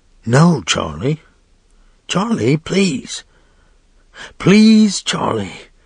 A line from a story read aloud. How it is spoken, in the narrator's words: the woman's whisper said